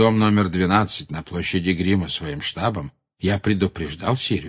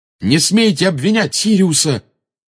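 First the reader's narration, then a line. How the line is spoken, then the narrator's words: Fierce shout. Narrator (Russian): свирепо выкрикнул Гарри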